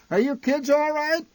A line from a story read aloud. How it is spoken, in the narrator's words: My mother occasionally shouted back through the din in our direction